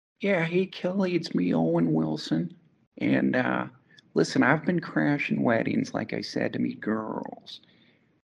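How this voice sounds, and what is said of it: Owen Wilson impression. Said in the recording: “maybe I could do a little Owen Wilson ... how would Owen Wilson wish someone a happy birthday?”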